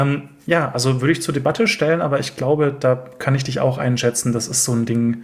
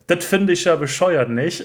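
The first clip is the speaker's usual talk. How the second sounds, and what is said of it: Put-on Berlin dialect, not authentic. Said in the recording (German): “auf Berlinerisch ... Das war jetzt überhaupt nicht authentisch ... irgendwas mit Dialekt”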